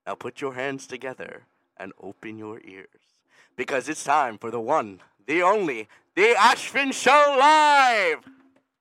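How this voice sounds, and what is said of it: Announcer voice. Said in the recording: “your little announcer voice”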